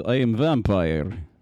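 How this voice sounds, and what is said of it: Put-on Russian vampire accent. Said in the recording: “the accent that people do with vampires is like Russian... It's very Russian... It's a Russian accent”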